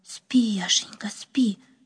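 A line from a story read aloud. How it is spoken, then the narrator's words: Whispered. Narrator (Russian): прошептала она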